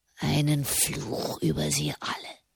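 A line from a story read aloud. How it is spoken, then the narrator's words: Hoarse whisper. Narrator (German): flüsterte er heiser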